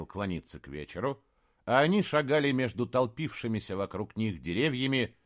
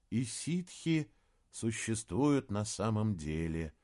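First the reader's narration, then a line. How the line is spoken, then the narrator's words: Quiet, awed and fearful. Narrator (Russian): тихо проговорил Саймон с благоговением и одновременно страхом, когда вспомнил свою встречу с одним из представителей диковинного народа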